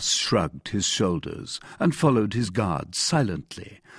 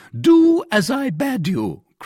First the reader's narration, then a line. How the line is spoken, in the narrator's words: cried the commissary